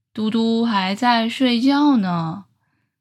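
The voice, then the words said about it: Very deep low voice. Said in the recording (Chinese): “先听到一个超低沉的声音说”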